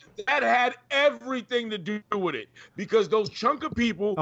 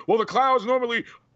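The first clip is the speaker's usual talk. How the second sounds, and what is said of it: Imitates a wrestling commentator's voice. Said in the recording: “my Michael Cole impression.”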